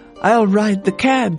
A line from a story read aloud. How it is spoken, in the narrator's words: she cried